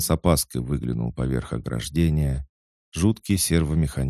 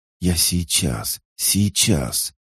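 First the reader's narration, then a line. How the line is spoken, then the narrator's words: Whisper through pale lips. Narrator (Russian): шептали его побелевшие губы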